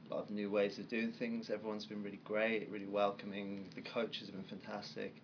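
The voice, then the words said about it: English Birmingham accent. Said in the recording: “I'm sure our listeners have probably picked up on your accent. You are not originally from the states. Uh, you were actually from Birmingham, um, England.”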